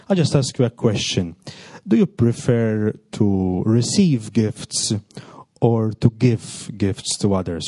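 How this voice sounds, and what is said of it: Speaks English with an accent. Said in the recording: “correct my accent”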